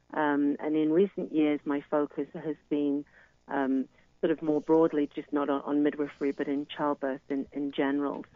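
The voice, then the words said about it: British English accent. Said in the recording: “as you can hear from my accent, I'm originally from the United Kingdom”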